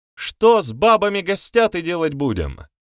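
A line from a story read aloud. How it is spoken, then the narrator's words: Woman shouting from crowd. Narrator (Russian): выкрикнул женский голос из толпы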